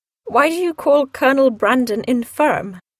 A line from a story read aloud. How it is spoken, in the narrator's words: asked Eleanor